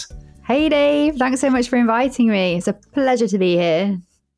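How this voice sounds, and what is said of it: British English accent. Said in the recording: “I could listen to your accent all day long. I love it. I wish I had a British accent ... lovely English accent”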